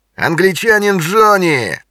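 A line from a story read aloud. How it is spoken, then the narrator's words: Loud laughter. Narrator (Russian): Краснолицый захохотал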